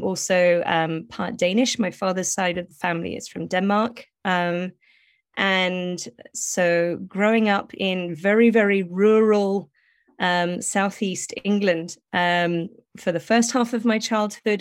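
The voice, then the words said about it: British accent. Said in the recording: “I sound British,”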